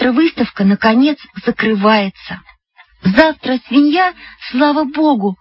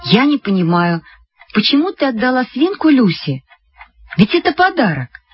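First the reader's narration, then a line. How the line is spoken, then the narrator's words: Plain question. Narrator (Russian): спросила мама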